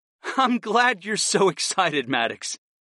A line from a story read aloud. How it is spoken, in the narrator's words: I chuckled